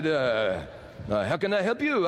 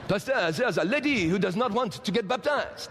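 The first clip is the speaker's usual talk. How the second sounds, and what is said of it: Put-on French accent. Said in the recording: “Beautiful French accent.”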